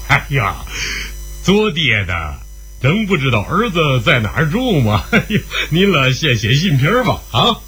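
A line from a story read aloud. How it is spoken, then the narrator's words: Old man, loud laugh. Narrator (Chinese): 老人一笑大声地说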